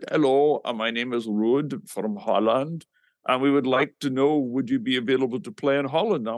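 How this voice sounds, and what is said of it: Put-on Dutch accent. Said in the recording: “this guy with a Dutch accent.”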